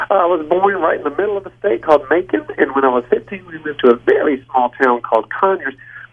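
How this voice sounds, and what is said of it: Southern US Georgia accent. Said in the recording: “you do seem to have that same accent. ... I'm from Georgia.”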